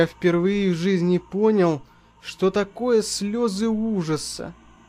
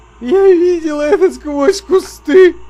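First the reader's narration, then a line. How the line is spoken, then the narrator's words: Sobbing. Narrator (Russian): рыдал он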